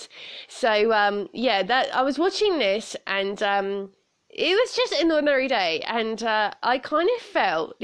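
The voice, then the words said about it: Strong British accent. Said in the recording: “a lot of British slang to it. If you think my accent is strong”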